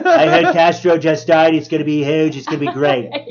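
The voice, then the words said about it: Donald Trump impression. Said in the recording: “I can do an impersonation of Trump ... That was a really good one.”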